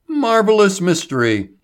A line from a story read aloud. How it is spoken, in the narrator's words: he cried